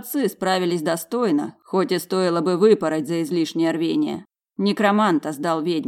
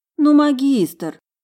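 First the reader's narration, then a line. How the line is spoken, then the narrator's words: Pleading. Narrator (Russian): взмолилась я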